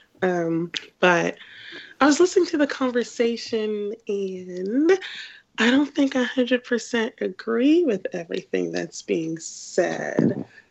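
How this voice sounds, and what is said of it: Sick, weird-sounding voice. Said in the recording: “I sound weird because I'm sick”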